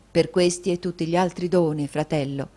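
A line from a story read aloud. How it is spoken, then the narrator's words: Plain. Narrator (Italian): disse Ned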